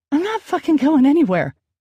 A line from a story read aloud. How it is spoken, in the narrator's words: I cried out, the bitterness in my voice